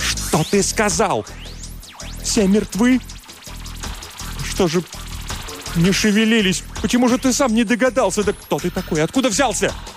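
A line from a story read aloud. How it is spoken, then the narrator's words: Shouting. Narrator (Russian): Я еще что-то кричала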